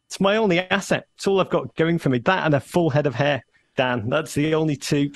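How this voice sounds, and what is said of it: Northern English accent. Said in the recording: “If you really wanted to be an American, you'd lose the accent ... why I still sound like I'm, you know, ripped from the north of England”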